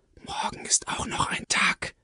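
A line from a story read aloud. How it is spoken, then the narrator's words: Mysterious whisper. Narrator (German): Doch Zippos flüsterte geheimnisvoll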